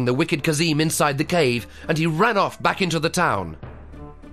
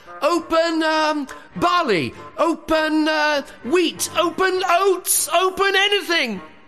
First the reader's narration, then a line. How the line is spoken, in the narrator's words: Kazim was shouting inside the cave